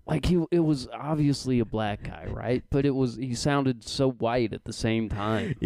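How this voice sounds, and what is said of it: Usual voice. Nothing is said of it.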